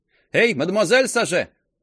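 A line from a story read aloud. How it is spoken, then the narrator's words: Calling out from afar. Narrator (Russian): крикнула Сарьетта из-за своего прилавка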